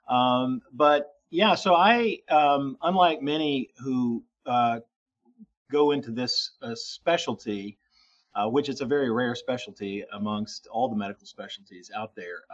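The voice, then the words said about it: Slight lingering Southern US accent. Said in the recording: “I'm a native Southerner, in fact. And so I grew up in Tennessee, and I still have a bit of that of a lingering Southern accent”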